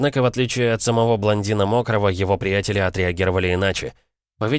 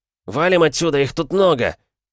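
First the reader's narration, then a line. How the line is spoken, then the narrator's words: Shouted. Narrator (Russian): Нестор крикнул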